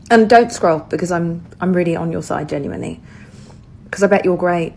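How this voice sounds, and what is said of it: British English accent. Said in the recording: “judging by your accent, I assume you live in the UK”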